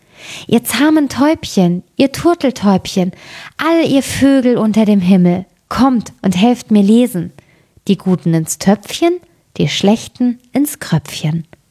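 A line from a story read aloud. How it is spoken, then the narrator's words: Calling out. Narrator (German): rief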